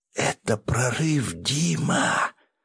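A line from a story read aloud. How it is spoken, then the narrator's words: Excited whisper. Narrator (Russian): шептала мне на ухо возбужденная до нельзя сестра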